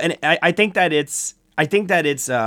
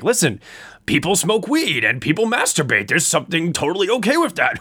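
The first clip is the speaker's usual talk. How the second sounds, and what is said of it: Seth Rogen impression. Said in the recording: “that was my best Seth Rogen impression. ... It's pretty good.”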